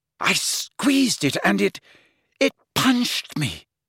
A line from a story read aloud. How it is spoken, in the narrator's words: she gasped